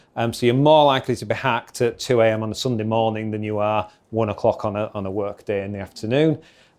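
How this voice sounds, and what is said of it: Yorkshire accent. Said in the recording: “we operate one in Yorkshire, if you haven't worked it out from the accent”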